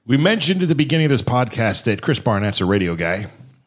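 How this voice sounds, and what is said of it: Booming radio announcer voice. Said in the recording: “I kicked in my radio voice... Kicked in his radio voice... There's more bravado”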